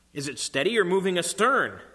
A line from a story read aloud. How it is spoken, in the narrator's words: called out